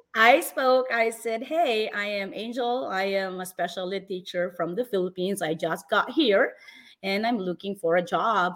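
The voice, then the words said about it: Heavy Filipino accent. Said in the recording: “heavy, heavy Filipino accent”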